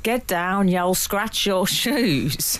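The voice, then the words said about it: Heavy Black Country accent. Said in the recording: “Heavily accented black country accent.”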